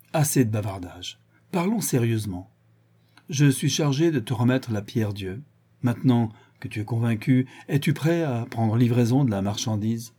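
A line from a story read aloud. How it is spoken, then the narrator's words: Grave tone. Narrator (French): d'un ton grave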